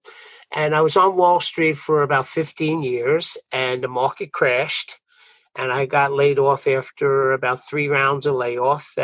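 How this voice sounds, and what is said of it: Brooklyn New York accent. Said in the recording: “Maybe you could pick up my Brooklyn accent”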